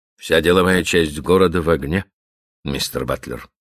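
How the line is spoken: Gloomy. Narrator (Russian): мрачно продолжал Каупервуд

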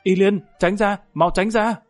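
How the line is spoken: Anxious hurried shout. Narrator (Vietnamese): Lâm Tam trong lòng lo lắng vội vã hét lên

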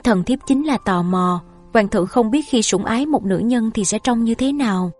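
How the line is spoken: Sighing. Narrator (Vietnamese): Nàng cúi đầu thở dài

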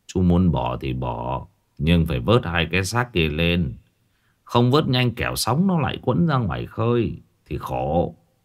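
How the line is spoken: Old man, sad sigh. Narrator (Vietnamese): Lão Tư Giòm thở dài, vẻ mặt đượm buồn

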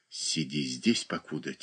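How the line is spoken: Quiet. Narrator (Russian): тихо сказала она Наташе

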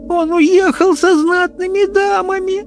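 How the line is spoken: Girl sobbing. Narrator (Russian): зарыдала девочка

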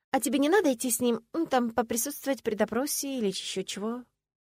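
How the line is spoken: Uncertain question. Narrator (Russian): неуверенно спросила я

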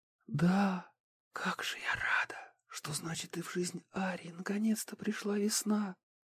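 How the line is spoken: Tearful whisper. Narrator (Russian): с проступившими на глазах слезами, прошептала Катрин

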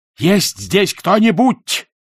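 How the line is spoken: Shouting. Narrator (Russian): прокричал

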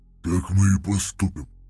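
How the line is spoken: Grumble. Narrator (Russian): проворчал Вознесенный

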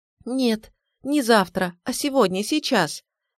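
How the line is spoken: Desperate pleading. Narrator (Russian): в отчаянии взмолилась я

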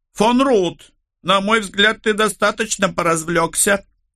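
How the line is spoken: Shouting prince. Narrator (Russian): крикнул принц

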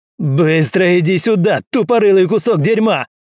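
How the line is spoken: Yelling. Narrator (Russian): заорал Уилл

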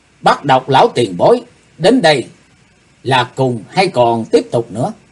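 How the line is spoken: Loud reply. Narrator (Vietnamese): Bắt Độc Lão Ma to tiếng đáp

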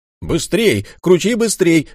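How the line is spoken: Shouting. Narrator (Russian): закричал Фарбендейр

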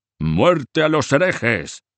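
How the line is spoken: Butcher shouting. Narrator (Spanish): Un obeso carnicero gritando

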